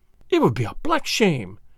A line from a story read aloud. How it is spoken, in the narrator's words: she cried, flushing high